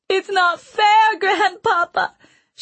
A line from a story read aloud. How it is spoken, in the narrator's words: she wailed